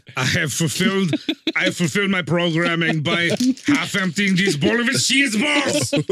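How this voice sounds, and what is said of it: Imitated voice, furious mid-sentence. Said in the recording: “That's the key to a good Arnold impression. Just furious mid sentence.”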